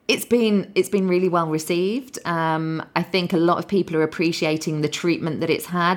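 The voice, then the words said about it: Slightly hoarse voice. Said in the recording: “I'm a little bit hoarse”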